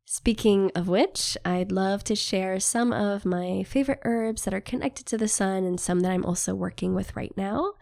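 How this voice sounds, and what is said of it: Congested, slightly off voice. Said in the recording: “my voice is still a little off from being challenged with this sinus cold stuff”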